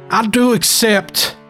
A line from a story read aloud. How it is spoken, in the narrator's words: he shouted back